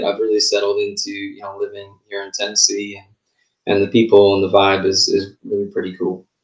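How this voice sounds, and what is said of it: Slight Southern US accent. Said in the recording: “i think i have a southern accent now ... you have a little bit of an accent now. You didn't have that before ... I hear it at times”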